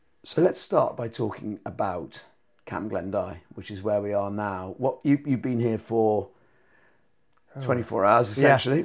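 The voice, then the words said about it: Extremely croaky voice. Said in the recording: “with an extremely croaky voice”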